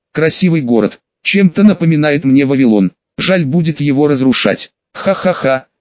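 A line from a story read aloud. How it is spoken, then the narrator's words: Laughing. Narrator (Russian): рассмеялся Радонис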